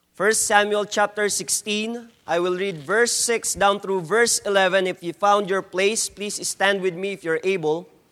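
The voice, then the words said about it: Strong Filipino accent. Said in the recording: “please bear with my English, please bear with my strong Filipino accent.”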